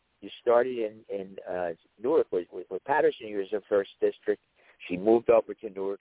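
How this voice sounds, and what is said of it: Rough voice, sounds like a tenor. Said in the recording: “my voice is terrible tonight, or maybe it sounds like a tenor”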